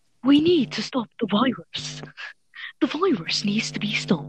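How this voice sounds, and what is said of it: Boris Johnson impression. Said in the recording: “You can do a good Boris Johnson accent, like impression.”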